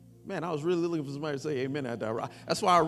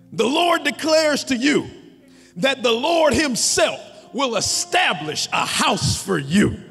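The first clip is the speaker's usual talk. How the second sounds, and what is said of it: Preacher voice. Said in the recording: “I read it with like my preacher voice”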